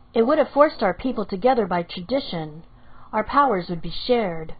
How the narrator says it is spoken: he answered

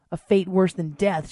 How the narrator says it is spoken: she growled with a low, gravelly voice

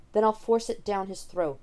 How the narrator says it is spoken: Watson snaps, more fiercely than he intends

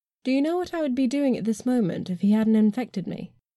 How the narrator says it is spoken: I asked calmly

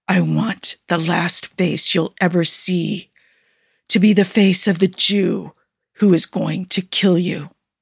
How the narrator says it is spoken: hissed

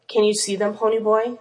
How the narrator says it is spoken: Steve would rasp

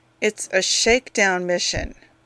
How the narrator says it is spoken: Barnett said through gritted teeth

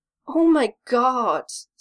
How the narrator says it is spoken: Stiles moans into what he thinks is a pillow

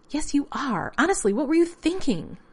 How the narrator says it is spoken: John, chilled despite the steam and fed up, snapped

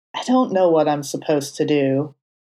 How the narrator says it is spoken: Matt admitted with a sigh

